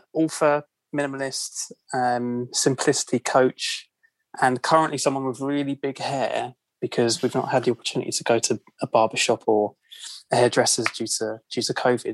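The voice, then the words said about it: London British accent. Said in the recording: “As you can probably tell by my accent, I'm from London, UK.”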